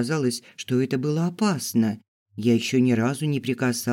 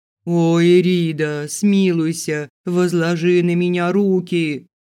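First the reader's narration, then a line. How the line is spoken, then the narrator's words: Moaning plea. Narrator (Russian): простонал посетитель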